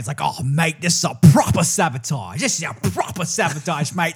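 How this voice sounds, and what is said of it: English accent that sounds Australian. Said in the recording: “the Englishman that sounds Australian.”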